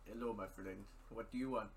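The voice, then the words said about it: Put-on Indian shopkeeper accent. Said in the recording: “Middle Eastern ... impersonation of the guys at that quick ... Stop ... No, that's more Indian.”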